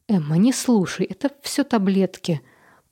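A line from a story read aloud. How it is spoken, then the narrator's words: Muttering. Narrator (Russian): пробормотала Мередит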